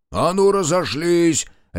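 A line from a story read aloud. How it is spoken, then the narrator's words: Harsh bark. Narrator (Russian): рявкнул Марков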